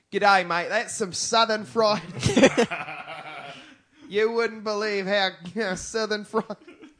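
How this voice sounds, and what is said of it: Put-on Australian accent. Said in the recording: “that was a pretty good like Australian accent”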